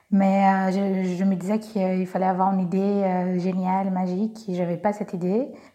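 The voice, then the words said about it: Slight Brazilian accent in French. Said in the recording (French): “comme vous pouvez entendre, je suis brésilienne, j'ai un petit accent”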